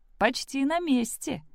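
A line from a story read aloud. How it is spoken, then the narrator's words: Joyful announcement. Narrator (Russian): радостно сообщила тетя Кэти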